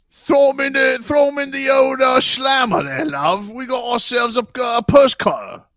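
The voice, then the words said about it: Poor attempt at English accent. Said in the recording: “That's not an English accent.”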